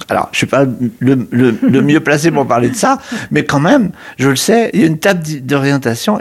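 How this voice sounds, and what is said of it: Slight accent. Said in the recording (French): “avec accent, un petit peu, une pointe d'accent.”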